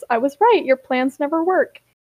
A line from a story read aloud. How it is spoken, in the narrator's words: Shatten snorts and says